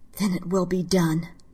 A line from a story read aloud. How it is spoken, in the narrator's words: In a quiet, angry voice, she said